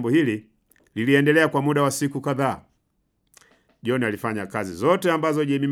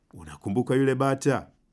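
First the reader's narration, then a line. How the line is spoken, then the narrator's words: Whispered. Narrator (Swahili): akamnongonezea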